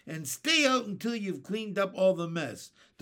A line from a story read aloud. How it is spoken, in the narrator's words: they yelled